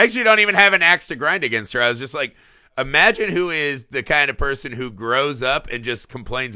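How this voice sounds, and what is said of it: Usual voice. Nothing is said of it.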